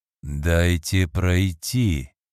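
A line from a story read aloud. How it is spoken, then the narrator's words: Icy voice. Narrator (Russian): Ледяным голосом произнес он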